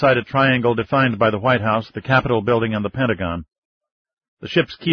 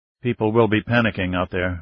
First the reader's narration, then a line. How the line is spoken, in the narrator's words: Ryan murmured